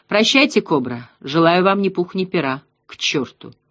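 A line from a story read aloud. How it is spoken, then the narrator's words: Mumbled farewell. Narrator (Russian): пробормотал Ратибор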